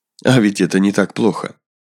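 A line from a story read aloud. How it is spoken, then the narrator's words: Snort, said aloud. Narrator (Russian): Влад хмыкнул, сказал вслух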